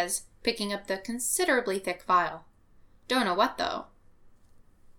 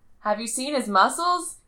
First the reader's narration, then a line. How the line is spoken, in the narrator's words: Clint hollers